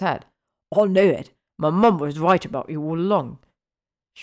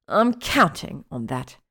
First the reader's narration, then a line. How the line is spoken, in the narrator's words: she hissed up at him